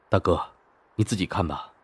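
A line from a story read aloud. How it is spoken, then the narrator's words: Deep, grave voice. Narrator (Chinese): 齐然沉声道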